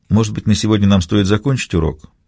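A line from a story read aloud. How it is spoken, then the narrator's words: Timid suggestion. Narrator (Russian): Робко предложил я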